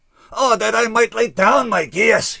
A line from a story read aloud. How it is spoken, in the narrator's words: he cried